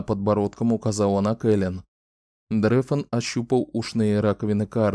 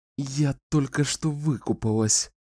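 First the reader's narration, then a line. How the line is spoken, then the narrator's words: Through gritted teeth. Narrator (Russian): сквозь зубы проговорила Кэлен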